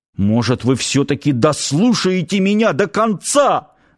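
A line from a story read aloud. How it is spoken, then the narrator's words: Commanding yell. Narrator (Russian): заорал парень на командиров так, словно самым главным начальником был как раз он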